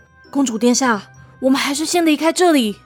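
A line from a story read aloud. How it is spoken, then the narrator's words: Low voice. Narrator (Chinese): 乌拉德低声说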